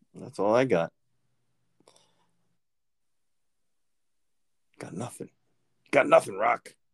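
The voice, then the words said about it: Imitation of Rocky's voice. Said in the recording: “That's my Rocky imitation ... It was pretty good.”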